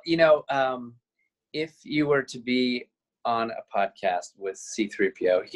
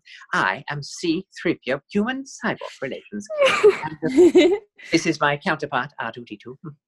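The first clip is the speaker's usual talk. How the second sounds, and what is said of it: Very proper robot character voice. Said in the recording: “Can you do the voice ... he's very proper”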